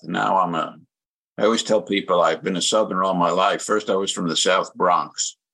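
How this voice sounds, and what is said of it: Noticeable regional American accent. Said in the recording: “you can tell by your accent ... 50 years I've been living here, and I still sound like this.”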